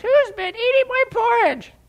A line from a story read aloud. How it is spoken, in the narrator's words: And so he squeaks